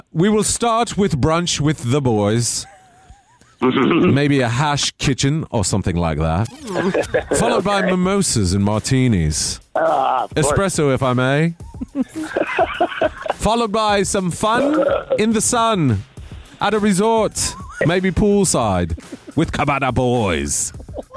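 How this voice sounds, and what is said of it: Mock English accent. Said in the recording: “this is to be read with an English accent, by the way... So it's very official, sir.”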